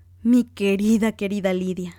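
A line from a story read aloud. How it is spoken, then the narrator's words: Exclaiming. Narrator (Spanish): exclamó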